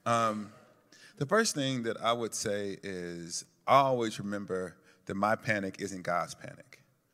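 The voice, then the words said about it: American Southern accent. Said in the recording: “I don't have a British accent ... You got to deal with the South for a minute.”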